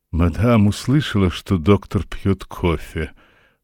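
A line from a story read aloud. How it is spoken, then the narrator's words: Hoarse bass voice. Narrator (Russian): проговорила она хриплым басом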